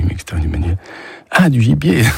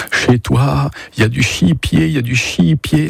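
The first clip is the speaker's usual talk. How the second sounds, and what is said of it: Put-on strong regional French accent. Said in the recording (French): “L'accent très prononcé”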